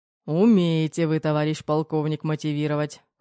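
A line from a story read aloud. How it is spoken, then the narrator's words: Wry snort. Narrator (Russian): хмыкнул Кир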